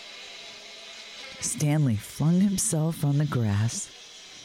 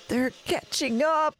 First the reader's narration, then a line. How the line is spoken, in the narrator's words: Tom yelped